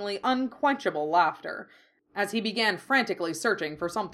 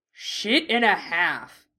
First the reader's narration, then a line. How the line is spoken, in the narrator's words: growled